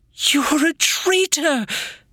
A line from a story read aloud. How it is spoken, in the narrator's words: Bella sobbed